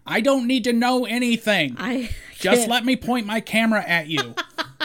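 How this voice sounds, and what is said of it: Imitates another person's voice. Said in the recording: “Very good impression.”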